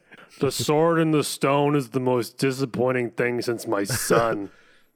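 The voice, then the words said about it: Imitates another person's voice. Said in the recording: “That was a bad impression.”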